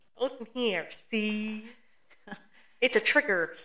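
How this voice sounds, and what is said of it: Unconvincing put-on New York accent. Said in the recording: “that is a Midwesterner trying to do it a New York accent. You need to sit down.”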